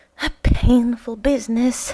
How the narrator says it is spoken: sighed Smith

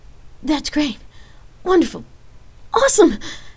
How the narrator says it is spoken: Rain happily stammered

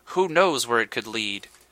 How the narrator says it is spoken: He sighed

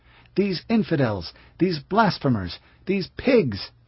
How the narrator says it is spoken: cried

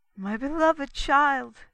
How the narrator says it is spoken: exclaimed she

